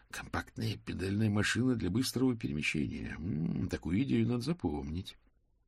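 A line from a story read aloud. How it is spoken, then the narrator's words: Inner voice whispering. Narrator (Russian): внутренний чертенок мокрица фон Липвига нашептал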